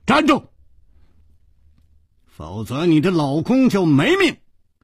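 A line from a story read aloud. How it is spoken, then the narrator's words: Shouted. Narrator (Chinese): 楚留香喊道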